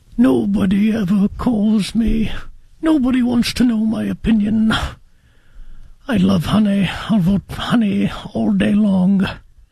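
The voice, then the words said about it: Winnie the Pooh character voice. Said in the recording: “in your Winnie Pooh voice”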